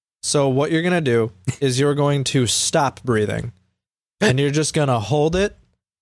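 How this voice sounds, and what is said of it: Flat monotone voice. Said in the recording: “Soothe everyone with my monotone voice.”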